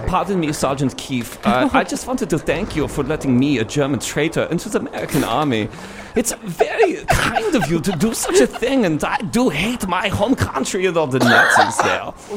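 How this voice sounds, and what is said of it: Put-on German accent. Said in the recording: “you do the best German impression”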